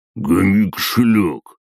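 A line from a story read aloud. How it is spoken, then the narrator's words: Male growl. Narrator (Russian): прорычал мужской голос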